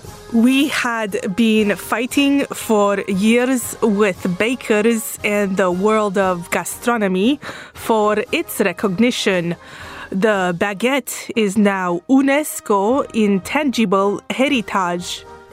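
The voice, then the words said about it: Romanian accent. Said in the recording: “whose Romanian accent is the closest thing we have in the building today”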